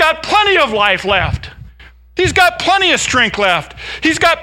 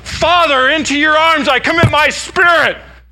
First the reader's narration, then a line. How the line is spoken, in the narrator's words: He's shouting out